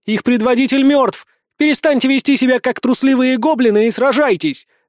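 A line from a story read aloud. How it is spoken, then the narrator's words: Dwarf queen shouting. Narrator (Russian): закричала королева гномов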